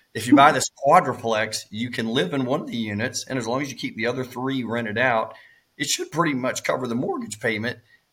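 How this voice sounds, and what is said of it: Cracking voice. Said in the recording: “my voice is cracking”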